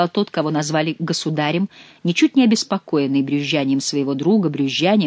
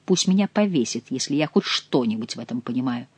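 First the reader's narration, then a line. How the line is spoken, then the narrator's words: Muttering. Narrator (Russian): пробормотал Шико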